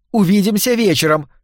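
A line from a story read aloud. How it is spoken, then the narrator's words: Called out after. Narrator (Russian): крикнула ему вслед Ивлин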